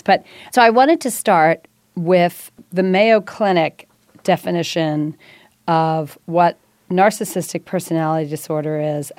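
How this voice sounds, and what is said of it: Congested, sick-sounding voice. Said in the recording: “I apologize to all of you listeners out there at the sound of my voice today ... What's wrong with my voice? I have a cold, so hopefully I can squeak through this.”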